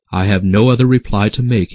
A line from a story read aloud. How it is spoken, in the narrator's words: he said